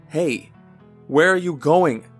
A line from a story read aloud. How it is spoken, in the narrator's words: yelled